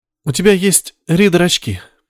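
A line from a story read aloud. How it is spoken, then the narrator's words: Sad smile. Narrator (Russian): грустно улыбнулась Мария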